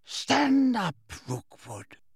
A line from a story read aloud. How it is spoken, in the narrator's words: whispered Harry